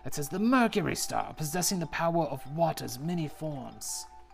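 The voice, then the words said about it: Put-on character accent. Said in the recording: “I don't like this accent I've done, so I'm going to change it.”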